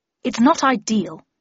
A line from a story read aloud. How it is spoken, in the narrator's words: said Harris gruffly